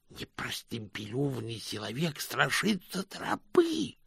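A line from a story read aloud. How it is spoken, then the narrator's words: Menacing hiss. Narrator (Russian): прошипел один из нападающих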